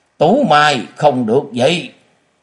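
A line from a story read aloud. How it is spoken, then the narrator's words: Loud shout. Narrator (Vietnamese): Mã Ô Xuyên lớn tiếng quát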